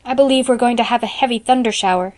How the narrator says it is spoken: she exclaimed in dismay

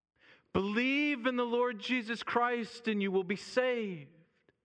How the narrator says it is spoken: he yelled out again to the young man

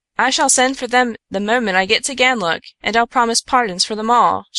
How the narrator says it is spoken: she cried rashly in her compassion

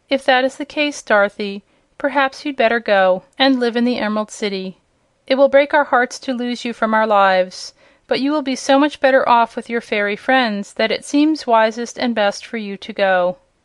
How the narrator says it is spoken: Aunt Em said, with another sigh of regret

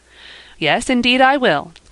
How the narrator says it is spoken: cried Ben

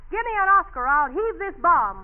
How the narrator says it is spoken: you jumped up on the table and yelled

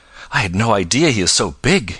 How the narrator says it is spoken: exclaimed

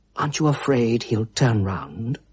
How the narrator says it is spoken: whispered

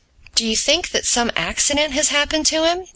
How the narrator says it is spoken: asked the doctor in a fearful voice

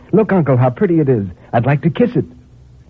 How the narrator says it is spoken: cried in bringing it back in triumph

